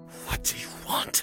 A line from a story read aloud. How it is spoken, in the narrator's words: he hissed through his teeth